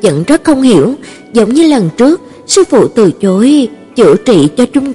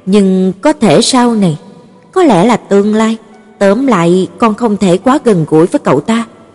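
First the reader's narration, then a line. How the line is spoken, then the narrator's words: Sighing teacher. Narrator (Vietnamese): Sư phụ vẫn thở dài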